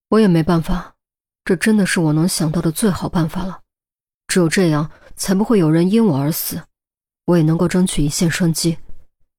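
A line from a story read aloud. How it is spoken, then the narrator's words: Sighing. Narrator (Chinese): 钟离叹了口气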